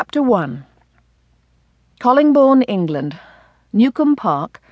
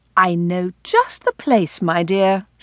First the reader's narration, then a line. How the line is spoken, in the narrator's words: reassured warmly